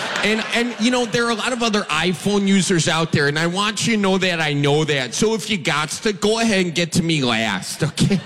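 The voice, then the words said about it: Wisconsin accent. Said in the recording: “I had a Wisconsin accent”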